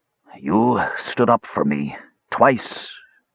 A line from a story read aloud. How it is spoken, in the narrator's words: finally rasped